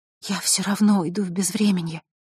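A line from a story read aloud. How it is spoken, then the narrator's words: Whisper. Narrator (Russian): прошептала Василиса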